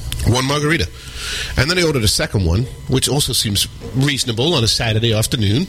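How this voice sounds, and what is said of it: Sick, congested voice from cold. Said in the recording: “You can hear by my voice that I'm still getting over the crazy cold I got”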